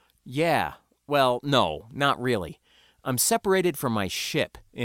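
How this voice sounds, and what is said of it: Usual voice. Nothing is said of it.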